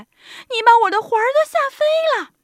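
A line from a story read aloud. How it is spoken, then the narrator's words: Old woman crying out. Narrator (Chinese): 瘦小的老妇人喊起来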